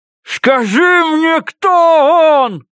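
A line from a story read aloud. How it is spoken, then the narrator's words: Yelling at her. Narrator (Russian): орал я на нее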